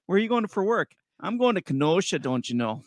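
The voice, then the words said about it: Put-on Wisconsin Northern accent. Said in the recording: “Can you say the word Kenosha without a Wisconsin Northern accent? ... it's a trap word ... my inner Wisconsin”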